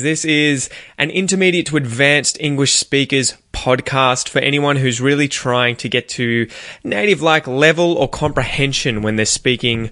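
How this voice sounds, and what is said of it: Australian English accent. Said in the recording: “specifically Australian English. Obviously, that is the accent that I have.”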